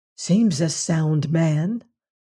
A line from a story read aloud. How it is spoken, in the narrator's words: whispered Antony to Bill